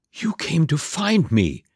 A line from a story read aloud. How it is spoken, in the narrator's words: whispered Cinderella, breaking the silence